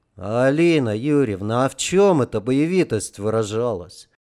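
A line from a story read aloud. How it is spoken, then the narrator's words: Thoughtful question. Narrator (Russian): Задумчиво спросил Женька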